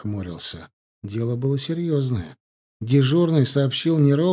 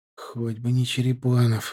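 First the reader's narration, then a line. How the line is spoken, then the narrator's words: Sighing. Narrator (Russian): вздохнул Стасик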